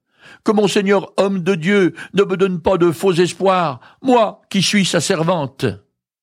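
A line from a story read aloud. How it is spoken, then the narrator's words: Exclaiming. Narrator (French): Elle s'écria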